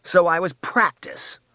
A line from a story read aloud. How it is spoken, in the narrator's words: Rose snarled